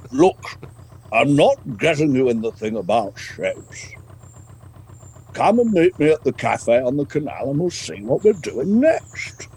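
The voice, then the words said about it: Imitates another person's voice, Gandalf-like. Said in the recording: “sort of like a Gandalf ... doing his voice”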